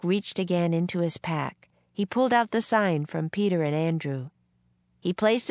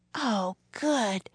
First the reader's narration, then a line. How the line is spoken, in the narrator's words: breathed Annie